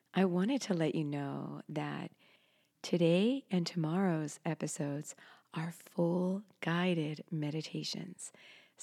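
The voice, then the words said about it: Voice affected by a cold. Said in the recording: “excuse my voice. I caught a cold.”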